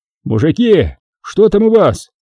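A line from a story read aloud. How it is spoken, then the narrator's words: Shout. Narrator (Russian): крикнул караульным Виктор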